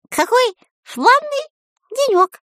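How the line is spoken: Thin squeaky voice. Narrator (Russian): сказал он тоненьким писклявым голосом

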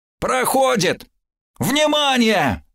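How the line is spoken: Yelling over headphones. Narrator (Russian): заорал шкипер в наушниках

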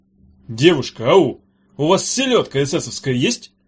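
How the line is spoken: Angry question. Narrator (Russian): сердито спросил взъерошенный

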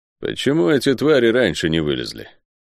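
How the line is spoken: Gloomy question. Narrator (Russian): мрачно спросил смуглый Лофер, один из самых опытных леопардов

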